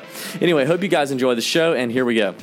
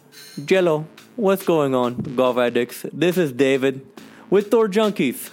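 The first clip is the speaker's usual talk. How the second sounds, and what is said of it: Put-on Hispanic accent. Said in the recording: “my best Hispanic accent ... embarrass myself with this Hispanic accent”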